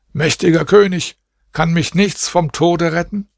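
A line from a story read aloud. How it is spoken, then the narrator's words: Calling out. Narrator (German): Da rief er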